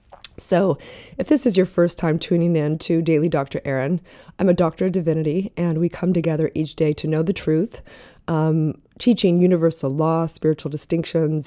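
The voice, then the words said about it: Hoarse, sick-sounding voice. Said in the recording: “my voice is all messed up today ... I've been sick the last”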